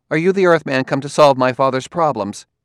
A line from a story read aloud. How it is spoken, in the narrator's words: She said sharply